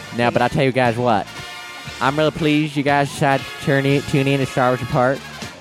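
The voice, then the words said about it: Poor put-on Southern accent. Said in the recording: “I rarely say y'all ... We don't usually use too strong of a Southern accent ... That wasn't even a good accent.”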